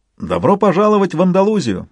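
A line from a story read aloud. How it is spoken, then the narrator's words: Joyful exclamation. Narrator (Russian): радостно воскликнул Мигель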